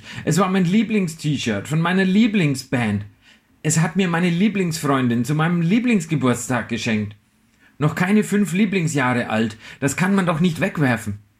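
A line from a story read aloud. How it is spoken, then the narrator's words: Screaming. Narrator (German): schrie ich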